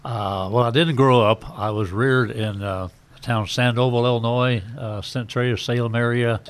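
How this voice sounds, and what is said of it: Slight southern American accent. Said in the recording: “a slight southern accent”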